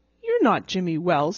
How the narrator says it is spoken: snapped

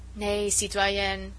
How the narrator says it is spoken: he said dryly and relentlessly

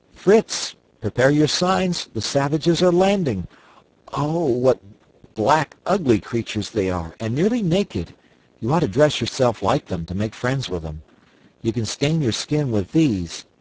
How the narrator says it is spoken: Jack, with his usual rashness, suddenly cried out

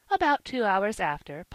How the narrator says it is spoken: Polly said merrily

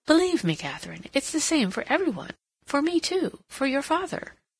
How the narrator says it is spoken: she said earnestly, and sighed

